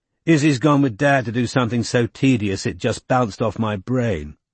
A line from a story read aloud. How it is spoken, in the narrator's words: he said